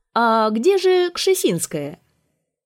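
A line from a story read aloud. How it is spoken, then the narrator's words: Loud question. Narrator (Russian): Александр III громко спросил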